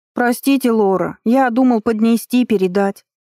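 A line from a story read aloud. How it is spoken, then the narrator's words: Boy squeaking. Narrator (Russian): пискнул мальчишка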